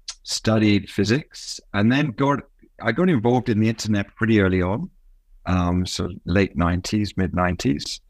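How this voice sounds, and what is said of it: Faded British accent. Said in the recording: “the accent is British. It's faded a little bit.”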